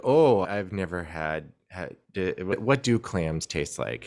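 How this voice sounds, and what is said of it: Put-on Midwestern American accent. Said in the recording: “I'm giving her a Midwestern accent”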